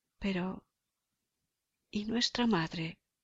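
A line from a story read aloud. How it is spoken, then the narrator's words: Pensive girl murmuring. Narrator (Spanish): la niña quedóse pensativa y murmuró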